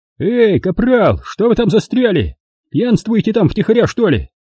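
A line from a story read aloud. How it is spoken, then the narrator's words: Shouting into darkness. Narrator (Russian): крикнул в темноту Эванс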